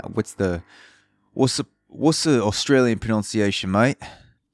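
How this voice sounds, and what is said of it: Bad put-on Australian accent. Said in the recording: “That's a terrible Australian accent right there. Sound like I'm have a bag of dicks in my mouth and I'm just don't know how to speak in an accent like from down under.”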